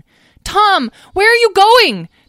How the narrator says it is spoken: Talora screamed

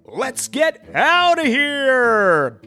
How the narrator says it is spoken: bellowed the umpire

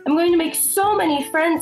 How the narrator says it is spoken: called out

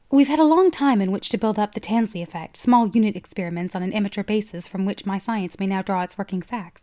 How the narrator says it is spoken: Kynes said

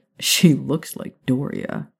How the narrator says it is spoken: Remus snorted

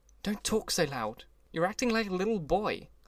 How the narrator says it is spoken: broke out impatiently

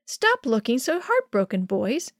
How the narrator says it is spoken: Manuel's mom said cheerfully

